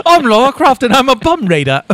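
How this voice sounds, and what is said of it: Bad put-on British accent. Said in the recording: “That's the worst British accent ever.”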